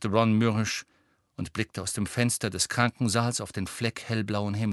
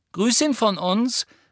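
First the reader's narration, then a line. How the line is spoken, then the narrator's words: Calling out. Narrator (German): rief Hermine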